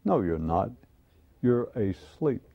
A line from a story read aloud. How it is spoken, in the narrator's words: the mystic calmly replied